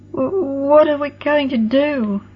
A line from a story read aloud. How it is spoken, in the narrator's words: Tess quavered, all traces of her tough shell gone in the terrors of the unfamiliar dark night